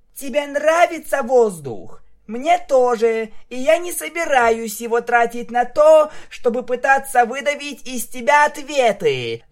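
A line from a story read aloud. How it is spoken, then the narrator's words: Shout. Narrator (Russian): закричала она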